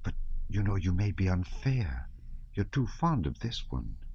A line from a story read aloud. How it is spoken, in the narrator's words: his wife whispered in French